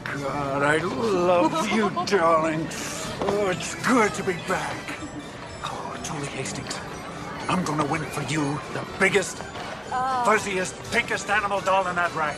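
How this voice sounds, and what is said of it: Actor using a put-on accent. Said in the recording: “this is actually a clip from a movie and they are not using their own accent.”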